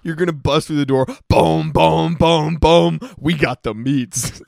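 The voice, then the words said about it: Bad impression of Arby's commercial voice. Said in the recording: “That's Arby's. That was a really bad impersonation.”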